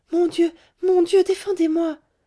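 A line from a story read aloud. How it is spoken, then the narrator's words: Pleading exclamation. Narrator (French): s'écria en joignant les mains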